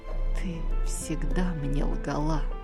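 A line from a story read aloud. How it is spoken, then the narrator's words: Whisper into ear. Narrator (Russian): Он наклонился к ее уху и прошептал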